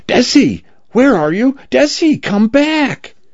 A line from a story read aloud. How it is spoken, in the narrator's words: Cal screaming